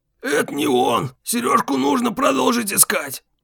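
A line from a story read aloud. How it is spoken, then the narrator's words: Relieved exhale. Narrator (Russian): Слава облегченно выдохнул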